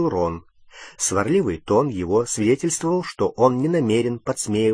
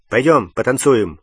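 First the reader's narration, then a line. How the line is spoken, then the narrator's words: Abrupt, sharp suggestion. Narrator (Russian): резко предложил он Гермионе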